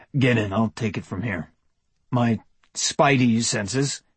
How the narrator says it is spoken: he said, his voice a touch dry on the unfamiliar syllables

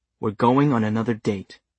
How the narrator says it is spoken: she said

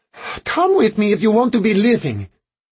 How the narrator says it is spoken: Fernando called to Harrigan

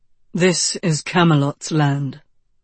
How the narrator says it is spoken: said the lion in his low, strapping voice

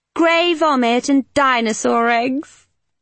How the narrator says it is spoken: Kitty said with a giggle

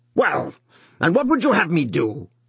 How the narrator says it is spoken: he shouted again

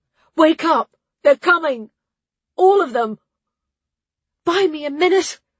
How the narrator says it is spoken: She gasped the words out

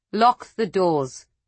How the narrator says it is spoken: she said, her voice cold

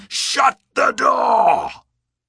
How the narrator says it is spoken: he screamed

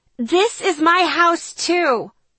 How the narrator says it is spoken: Jessica screamed

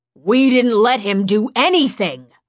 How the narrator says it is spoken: Jen shouted

